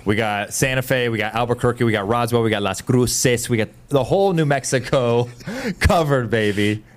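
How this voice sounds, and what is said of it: Mixed Cuban-flavored put-on accent. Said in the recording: “That's the Cuban in me coming out ... wasn't quite a New Mexican accent ... That was something else ... It's Cuban ... It's Floridian, Ohioan, New Yorkian, Las Angela's ... a little bit of everything mixed up”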